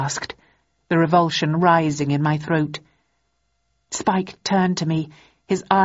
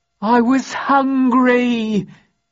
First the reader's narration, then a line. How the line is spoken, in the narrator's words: he howled